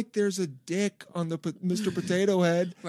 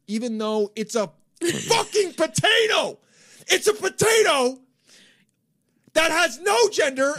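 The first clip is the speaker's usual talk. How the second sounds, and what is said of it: Yelling angrily. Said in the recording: “tone. Deep breath... There's a way to talk about this that is not yelling”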